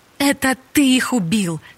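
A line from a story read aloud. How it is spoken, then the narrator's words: Furious exclamation. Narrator (Russian): яростно воскликнула Софи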